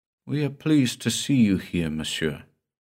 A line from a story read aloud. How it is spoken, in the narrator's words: a subdued voice, a melancholy, weary voice, murmured